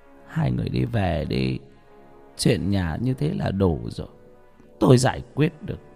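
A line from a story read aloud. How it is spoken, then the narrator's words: Sighing. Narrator (Vietnamese): bà ấy thở dài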